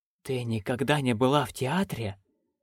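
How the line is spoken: Whisper. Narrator (Russian): прошептала Маград

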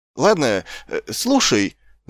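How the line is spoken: Stammering leader. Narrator (Russian): запинаясь проговорил предводитель

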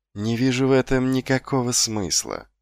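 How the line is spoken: Calm reply. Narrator (Russian): спокойно отвечал Патриций

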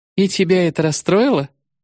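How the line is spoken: Woman laughing. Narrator (Russian): Она рассмеялась

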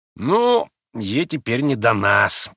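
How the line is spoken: Grumbling. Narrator (Russian): проворчал Ракитин

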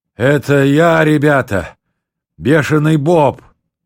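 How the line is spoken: Wheezing, phlegmy rasp. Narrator (Russian): прохрипел сквозь мокроту

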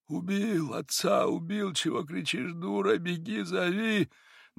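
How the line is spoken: Quiet incoherent babbling. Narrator (Russian): Григорий же лепетал тихо и бессвязно

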